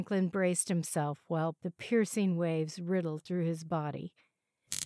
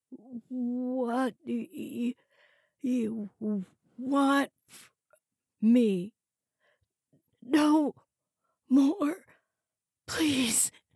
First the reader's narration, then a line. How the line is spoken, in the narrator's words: gasped